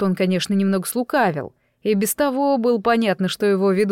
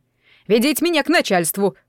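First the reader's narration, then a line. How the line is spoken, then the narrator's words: Shouted. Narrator (Russian): крикнул Сяогу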